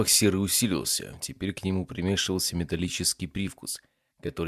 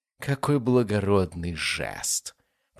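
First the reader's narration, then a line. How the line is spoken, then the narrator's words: Grating metallic hiss. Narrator (Russian): прошипел он голосом, больше похожим на скрежет ржавого металла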